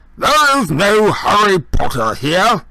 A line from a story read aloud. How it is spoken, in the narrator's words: he roared, now holding the receiver at arm's length, as though frightened it might explode